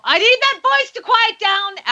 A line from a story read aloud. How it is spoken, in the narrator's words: yelled